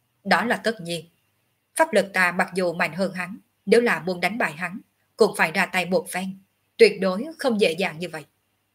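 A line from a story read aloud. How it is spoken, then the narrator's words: Cold, arrogant. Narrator (Vietnamese): Ngọc Hư Tử tầm cao khí ngạo, lạnh lùng nói tiếp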